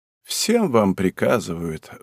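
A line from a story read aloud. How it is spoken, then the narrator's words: Sigh. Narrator (Russian): вздохнула она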